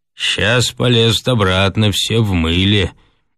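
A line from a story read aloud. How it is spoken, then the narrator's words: Gloomy remark. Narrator (Russian): отметил мрачно Хрунич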